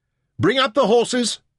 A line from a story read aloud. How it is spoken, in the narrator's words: Merrin yelled